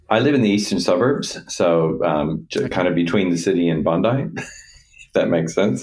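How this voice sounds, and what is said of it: American accent. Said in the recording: “everybody will recognize the American accent”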